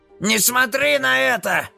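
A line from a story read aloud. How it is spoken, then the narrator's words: Shout. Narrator (Russian): закричал Шарки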